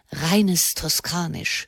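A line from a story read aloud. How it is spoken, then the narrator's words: Whispered aside. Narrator (German): flüsterte Erzbischof Prignano dem Kardinal Corsini zu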